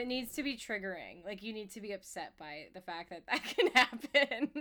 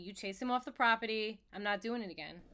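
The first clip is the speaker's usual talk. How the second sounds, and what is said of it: Convincing Long Island accent. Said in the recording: “Your Long Island accent is too good. ... You sound... so genuinely Long Island.”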